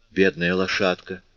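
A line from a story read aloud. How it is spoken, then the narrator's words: Sighing. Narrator (Russian): вздохнула Фонтина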